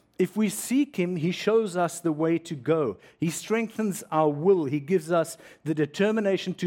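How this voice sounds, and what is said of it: Usual voice. Nothing is said of it.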